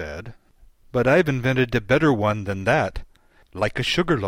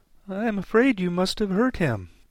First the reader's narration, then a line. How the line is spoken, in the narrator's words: she said in a trembling voice